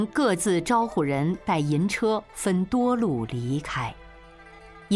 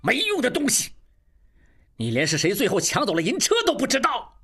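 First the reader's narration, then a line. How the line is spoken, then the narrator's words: Furious. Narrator (Chinese): 怒不可遏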